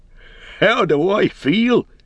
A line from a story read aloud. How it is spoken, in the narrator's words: he cried